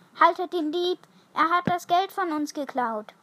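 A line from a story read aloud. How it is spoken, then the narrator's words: Call. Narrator (German): rief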